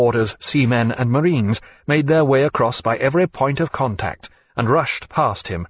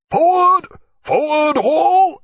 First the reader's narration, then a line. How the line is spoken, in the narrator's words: cried Jack